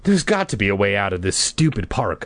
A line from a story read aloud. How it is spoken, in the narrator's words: I cried angrily